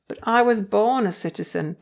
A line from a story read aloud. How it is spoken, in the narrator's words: Paul replied